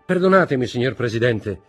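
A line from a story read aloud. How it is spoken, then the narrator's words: Firm voice. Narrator (Italian): disse con voce ferma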